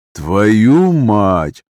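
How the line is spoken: Drawl. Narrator (Russian): протянул я

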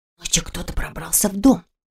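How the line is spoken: Near whisper. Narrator (Russian): почти шепотом сообщила

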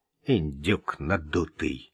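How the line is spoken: Mutter. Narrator (Russian): пробормотал Вик

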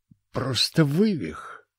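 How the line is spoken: Relieved sigh. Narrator (Russian): облегченно вздохнул

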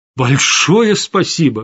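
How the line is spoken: Exclaiming. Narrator (Russian): воскликнул я

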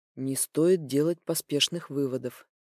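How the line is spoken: Quiet. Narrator (Russian): тихо произносит босс

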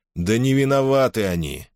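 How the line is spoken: Sighing. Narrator (Russian): вздохнул Юрк

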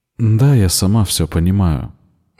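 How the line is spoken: Sad sigh. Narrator (Russian): грустно вздохнула Рикка

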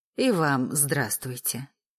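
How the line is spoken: Purring voice. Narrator (Russian): промурлыкала Тома

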